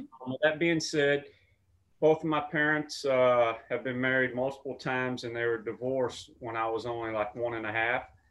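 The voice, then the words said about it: Strong regional accent. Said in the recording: “I have a very strong accent ... people know me for my accent, especially here in LA.”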